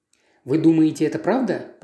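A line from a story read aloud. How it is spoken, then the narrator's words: Whispering. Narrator (Russian): прошептал я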